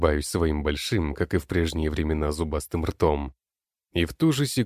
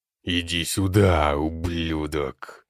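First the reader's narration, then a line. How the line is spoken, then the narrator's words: Otherworldly yell. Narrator (Russian): Потусторонним голосом орет некромант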